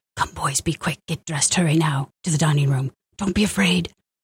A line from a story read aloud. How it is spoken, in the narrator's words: Tata whispering loudly